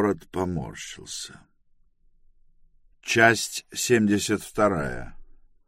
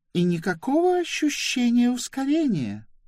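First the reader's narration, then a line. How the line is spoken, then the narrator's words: Exclaiming. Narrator (Russian): воскликнула она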